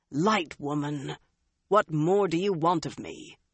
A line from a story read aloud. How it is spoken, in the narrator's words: Galad growled